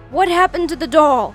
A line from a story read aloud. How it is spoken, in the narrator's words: yelled